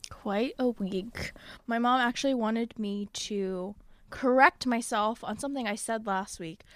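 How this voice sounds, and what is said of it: Usual voice. Nothing is said of it.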